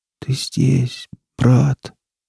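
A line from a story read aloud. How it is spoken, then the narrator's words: Barely audible whisper. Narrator (Russian): едва слышно прошептал кипяток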